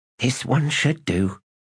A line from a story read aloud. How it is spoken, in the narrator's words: she muttered